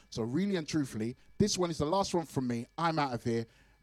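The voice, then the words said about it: Hoarse, worn-out voice. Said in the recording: “you can tell that my voice is gone, yeah. Yeah, my voice is gone.”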